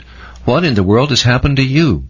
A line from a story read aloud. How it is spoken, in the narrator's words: the doctor … exclaimed